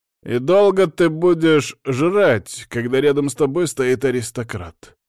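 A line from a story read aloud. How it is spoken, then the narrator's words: Loud young man. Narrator (Russian): громко произнес парень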